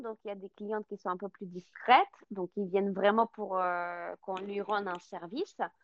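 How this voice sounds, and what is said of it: Slight foreign accent in French. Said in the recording (French): “vous avez un petit accent”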